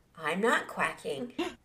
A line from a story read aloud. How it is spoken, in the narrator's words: She calmly said